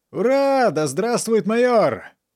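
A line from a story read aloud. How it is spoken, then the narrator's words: Sergeant yelling. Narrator (Russian): заорал сержант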